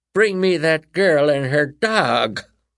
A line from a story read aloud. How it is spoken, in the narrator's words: Her cackling filled the auditorium